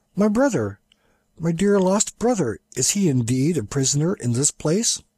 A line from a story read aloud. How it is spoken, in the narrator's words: Shaggy exclaimed